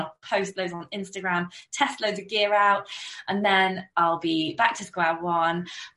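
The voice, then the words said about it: Slightly croaky voice. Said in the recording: “I don't know if you can tell from my voice, but I'm still a bit croaky from this two week cold.”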